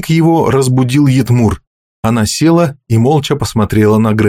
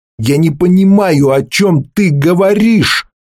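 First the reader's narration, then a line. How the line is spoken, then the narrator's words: Shout aloud. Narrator (Russian): закричал Грен вслух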